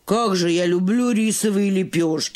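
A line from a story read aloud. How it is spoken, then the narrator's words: Fat mouse sighing. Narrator (Russian): вздохнула толстая мышь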